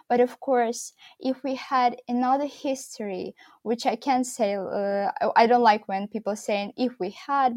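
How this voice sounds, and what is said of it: Posh British accent. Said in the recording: “posh British accent”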